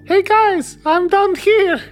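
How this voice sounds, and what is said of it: High-pitched character voice. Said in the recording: “a really good high pitched, still Ernie accent. That was really well done.”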